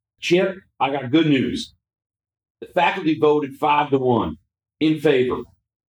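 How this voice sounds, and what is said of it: Imitated strong Southern US accent. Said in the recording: “he has this incredibly wonderful Southern... Very Southern accent... it's an epic accent”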